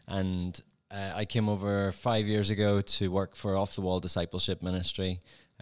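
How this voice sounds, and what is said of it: Northern Irish accent. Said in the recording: “I'm from Northern Ireland, so I have that particular accent.”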